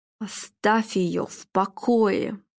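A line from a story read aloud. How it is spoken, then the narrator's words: Hissed into ear. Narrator (Russian): прошипел Филипп, наклонившись к его уху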